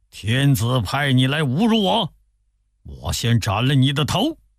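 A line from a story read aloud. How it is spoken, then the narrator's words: Furious rebuke. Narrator (Chinese): 李觉大怒，…呵斥说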